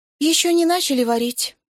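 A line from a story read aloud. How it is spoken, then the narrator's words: Sighing. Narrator (Russian): вздохнула Зоя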